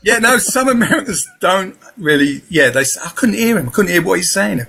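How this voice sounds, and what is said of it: Southeast London accent. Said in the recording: “I was brought up in Peckham, London, Southeast London. So that's my accent.”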